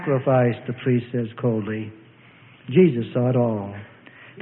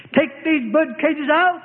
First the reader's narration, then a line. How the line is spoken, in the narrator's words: he shouted in a righteous rage